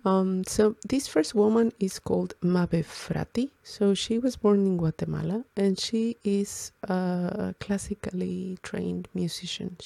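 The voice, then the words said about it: Slightly hoarse, sore-throat voice. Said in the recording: “my voice sounds a little bit weird ... I have a little bit of a sore throat”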